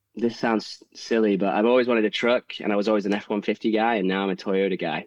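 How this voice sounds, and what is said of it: English accent, sounds slightly Australian. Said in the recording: “I'm losing my accent, but I am English. A lot of people think I'm Australian... Or South African... It sounds a little Australian there.”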